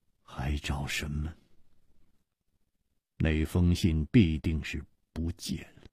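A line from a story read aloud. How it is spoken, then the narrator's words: Murmuring. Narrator (Chinese): 张孝林喃喃地说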